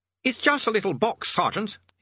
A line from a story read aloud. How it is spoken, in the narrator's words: he snapped